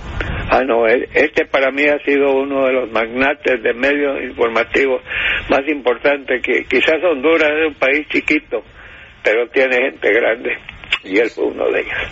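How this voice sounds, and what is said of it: Rough, hoarse, emotional voice. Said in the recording (Spanish): “reponer la voz, ... estoy conmovido ... esta voz de perro que tengo”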